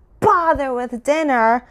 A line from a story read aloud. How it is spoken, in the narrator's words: cried my uncle